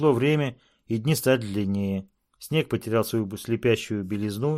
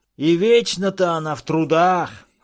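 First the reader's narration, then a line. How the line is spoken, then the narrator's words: Shouted. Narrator (Russian): крикнул он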